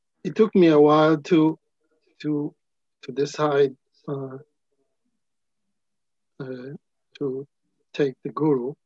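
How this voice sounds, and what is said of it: Emotional, halting speech. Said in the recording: “a little bit emotional,”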